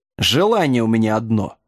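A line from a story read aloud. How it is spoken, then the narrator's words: Quiet growl. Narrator (Russian): тихо зарычал Джек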